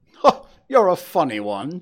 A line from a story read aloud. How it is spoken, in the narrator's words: chuckled the inspector